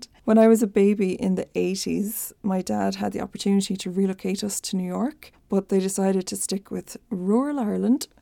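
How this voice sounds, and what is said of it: Irish accent. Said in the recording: “I'm Irish, in case it's not a giveaway from my accent.”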